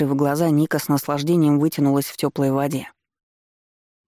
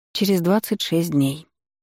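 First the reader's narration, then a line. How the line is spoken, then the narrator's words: Young woman sighing. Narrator (Russian): вздохнула девушка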